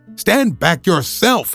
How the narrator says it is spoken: he cried

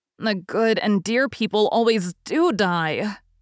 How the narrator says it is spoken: groaned Joe

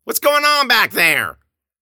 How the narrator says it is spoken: Grossman yelled from the living room

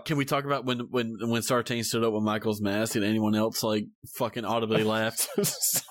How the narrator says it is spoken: I giggled

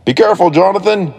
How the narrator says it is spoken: he yelled

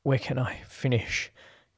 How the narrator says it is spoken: Chris asked between panting breaths

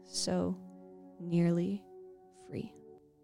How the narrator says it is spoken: the subject weakly choked out

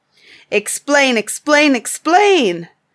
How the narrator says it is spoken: cried all the tribe of Tegemai

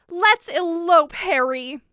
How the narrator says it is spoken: she said angrily

